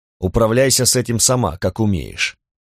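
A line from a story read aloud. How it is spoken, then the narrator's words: Cold reply. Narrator (Russian): ответил он холодно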